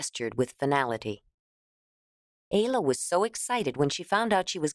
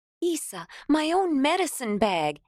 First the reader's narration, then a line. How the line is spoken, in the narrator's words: Ayla cried